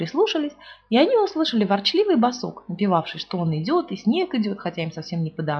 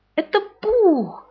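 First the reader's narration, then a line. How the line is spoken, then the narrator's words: Joyful. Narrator (Russian): радостно сказал Кристофер Робин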